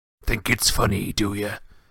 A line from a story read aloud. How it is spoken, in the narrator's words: He growled